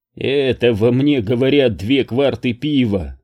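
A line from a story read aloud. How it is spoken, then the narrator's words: Laughing. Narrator (Russian): рассмеялся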